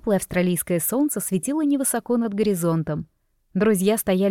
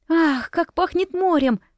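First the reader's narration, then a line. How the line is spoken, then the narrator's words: Exclaiming. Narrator (Russian): воскликнула Лиза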